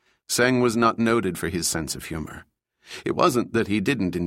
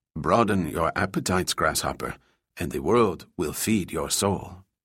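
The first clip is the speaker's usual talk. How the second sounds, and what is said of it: Put-on elderly Chinese sage accent. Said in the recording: “Putting on the accent of an elderly Chinese sage”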